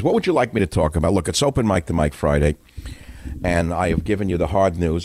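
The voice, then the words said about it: New York accent. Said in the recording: “the New York accent, which I, of course, exemplify”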